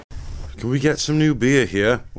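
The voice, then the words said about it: Put-on English accent. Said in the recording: “I don't know why I'm doing an English accent. ... I need a character voice, but I don't think that was the right one.”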